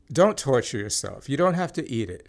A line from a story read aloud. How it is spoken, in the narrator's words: said